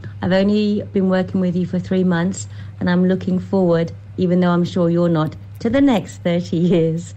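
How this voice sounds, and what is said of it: Birmingham English accent. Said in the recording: “Birmingham accent”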